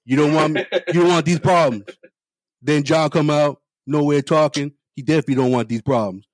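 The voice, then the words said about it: Spot-on imitation of another person's voice. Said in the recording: “The spot on Shannon Sharp impersonation”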